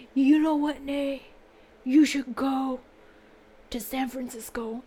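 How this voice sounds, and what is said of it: Deep voice imitating her mother. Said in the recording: “Why does my mom have a deep voice? My mom's voice is, I think, higher than mine ... Is my mom, like, a wrestler?”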